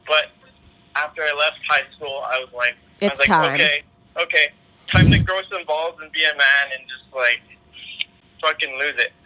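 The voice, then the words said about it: Canadian accent. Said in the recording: “You have such a Canadian accent”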